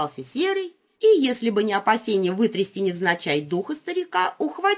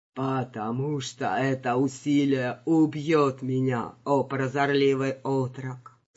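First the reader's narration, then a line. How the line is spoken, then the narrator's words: Sighing. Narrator (Russian): вздохнул Джин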